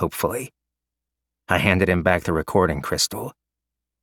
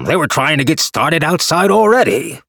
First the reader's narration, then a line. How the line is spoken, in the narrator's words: Yao Che bellowed